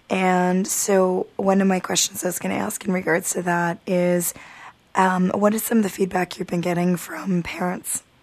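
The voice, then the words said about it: Hoarse, fading voice. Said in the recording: “I'm losing my voice. It's the lovely meningitis of the season, so the virus is going around.”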